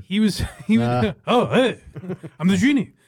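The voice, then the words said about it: Imitates another person's voice. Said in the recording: “say that impression ... No better impression than someone that says, I'm Robin Williams.”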